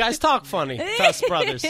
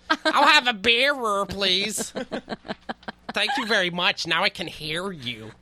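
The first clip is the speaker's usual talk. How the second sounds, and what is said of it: Exaggerated white-person voice impression. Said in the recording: “I feel like a black comic doing a white impression.”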